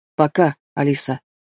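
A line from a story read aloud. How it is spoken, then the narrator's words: Suddenly hoarse voice. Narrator (Russian): внезапно охрипшим голосом говорит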